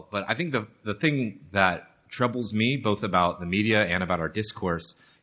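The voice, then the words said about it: American accent. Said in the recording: “by my accent, obviously an American”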